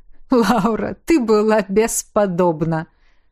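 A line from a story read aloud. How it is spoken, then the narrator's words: Said after laughing. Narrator (Russian): отсмеявшись, сказал он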